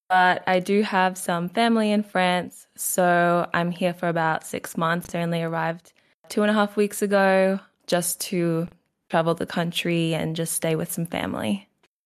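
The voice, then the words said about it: Australian accent. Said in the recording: “You sound Australian to me.”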